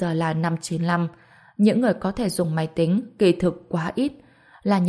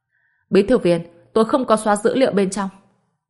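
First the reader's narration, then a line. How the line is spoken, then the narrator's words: Angry. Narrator (Vietnamese): ông ta giận dữ nói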